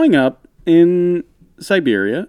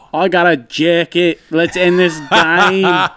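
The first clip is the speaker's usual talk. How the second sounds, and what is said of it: Put-on Australian accent. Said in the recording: “It's a good Australian accent. ... Good. I think it's good.”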